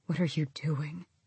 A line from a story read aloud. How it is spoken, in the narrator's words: the old male quietly said